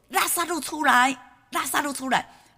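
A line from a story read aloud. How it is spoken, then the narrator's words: Loud. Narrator (Chinese): 主大声说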